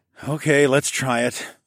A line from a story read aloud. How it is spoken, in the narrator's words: I sighed